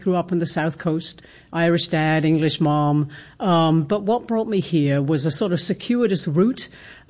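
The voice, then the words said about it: British accent. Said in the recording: “I detect a British accent ... Yes, British accent, definitely.”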